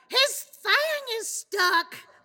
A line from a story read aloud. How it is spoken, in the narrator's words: yelled and broke out into a dance